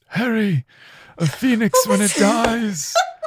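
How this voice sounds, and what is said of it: Tired British-accented Dumbledore impression. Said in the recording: “I love that constantly sounding so tired... That impression was spot on... The British accent is meh.”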